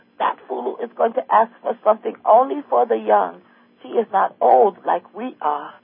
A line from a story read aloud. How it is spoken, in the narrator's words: they moaned